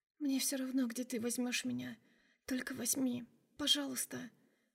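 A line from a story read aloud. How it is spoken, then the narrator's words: Whisper. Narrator (Russian): прошептала она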